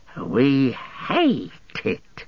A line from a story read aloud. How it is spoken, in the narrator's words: hissed